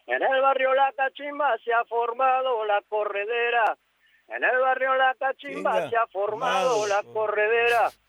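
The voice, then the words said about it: Singing in an old woman's voice. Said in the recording (Spanish): “te canto con voz de vieja”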